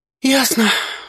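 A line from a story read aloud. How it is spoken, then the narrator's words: Sighing. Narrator (Russian): вздохнула я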